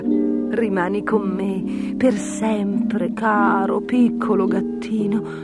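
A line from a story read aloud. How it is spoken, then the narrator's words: Lady's whisper. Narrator (Italian): sussurrò la dama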